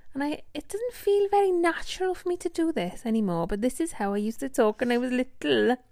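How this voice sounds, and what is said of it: Put-on South Wales accent. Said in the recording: “let's talk in a Welsh accent then. This is a South Wales accent ... I'm just doing a Welsh accent”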